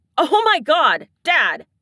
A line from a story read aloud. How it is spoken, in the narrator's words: Shane yelps, sounding mortified